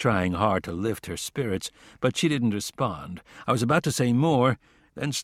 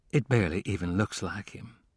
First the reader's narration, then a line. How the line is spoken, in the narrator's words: she said in a weak, shaky voice